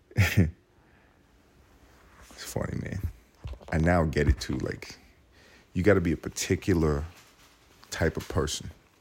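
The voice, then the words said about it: Whispering. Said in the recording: “whispering”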